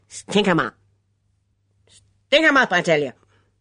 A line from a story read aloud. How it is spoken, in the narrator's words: the voice barked